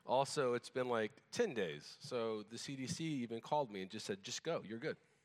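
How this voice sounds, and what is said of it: Slightly off, sick-sounding voice. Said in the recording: “my voice is a little off. I was sick all week.”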